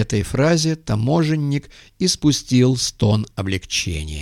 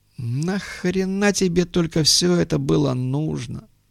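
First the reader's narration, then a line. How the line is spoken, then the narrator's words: Tired question. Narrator (Russian): устало спросил Муха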